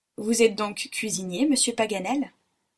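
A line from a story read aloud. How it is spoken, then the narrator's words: Plain. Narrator (French): dit Robert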